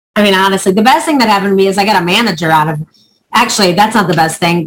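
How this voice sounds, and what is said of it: Prominent Chicago accent. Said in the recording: “I have a very prominent Chicago accent, even though I've lived here so many years”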